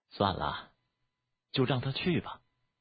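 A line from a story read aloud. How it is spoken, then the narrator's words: Sighing. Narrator (Chinese): 苏如叹息了一声，对田不易说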